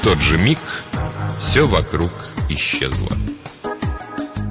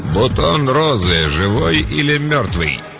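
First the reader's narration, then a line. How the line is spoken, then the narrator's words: Gritted, in a man's voice. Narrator (Russian): процедила мужским голосом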